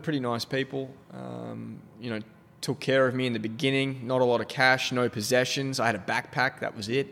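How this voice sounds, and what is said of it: Australian accent. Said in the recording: “An Aussie accent in America goes a long way. ... It does come across as, like, friendlier, honestly.”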